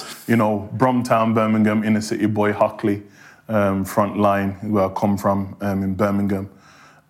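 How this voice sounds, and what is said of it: Birmingham English accent. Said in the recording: “you got that Birmingham accent.”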